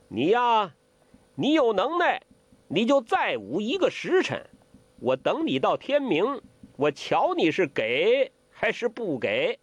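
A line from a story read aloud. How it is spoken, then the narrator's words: Shouting. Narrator (Chinese): 欧阳克叫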